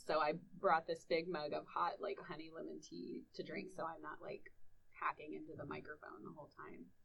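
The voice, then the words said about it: Husky, raspy sore-throat voice. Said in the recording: “I've had a sore throat all week ... I've had kind of a Kathleen Turner voice going on all week”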